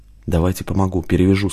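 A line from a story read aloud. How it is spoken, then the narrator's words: Plain. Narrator (Russian): сказал Иван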